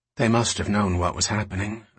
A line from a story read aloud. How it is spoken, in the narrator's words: Alicia said quietly